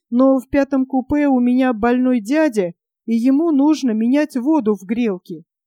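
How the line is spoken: Trembling voice. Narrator (Russian): вздрагивающим голосом ответил

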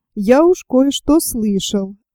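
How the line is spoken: Plain. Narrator (Russian): ответил Андрей Иванович

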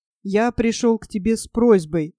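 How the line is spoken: Timid speech. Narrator (Russian): робко сказал он

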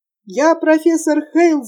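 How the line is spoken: Yelling over the wind. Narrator (Russian): завопил он, перекрикивая вой ветра

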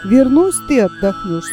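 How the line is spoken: Plain. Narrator (Russian): сказал он

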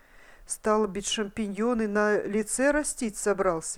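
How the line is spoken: Plain. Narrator (Russian): сказал Садовский

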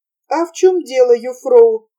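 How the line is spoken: Eager exclamation. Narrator (Russian): с готовностью воскликнул Ханс

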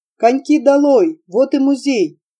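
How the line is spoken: Shouting. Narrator (Russian): капитан Ван Хольп крикнул

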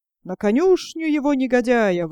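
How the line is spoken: Yelling. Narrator (Russian): вопит пан

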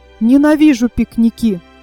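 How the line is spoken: Pointedly angry. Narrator (Russian): подчеркнуто сердито сказал

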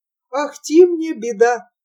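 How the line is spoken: Old man sighing. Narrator (Russian): вздохнул старик

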